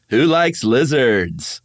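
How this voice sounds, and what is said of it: Morning show host voice. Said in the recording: “do a morning show host impression ... That was pretty good”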